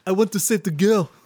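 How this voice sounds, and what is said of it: Vague European accent. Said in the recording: “With his, like, constant vague European accent.”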